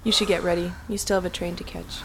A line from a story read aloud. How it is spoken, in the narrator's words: she said, her voice void of emotion as she struggled to keep her composure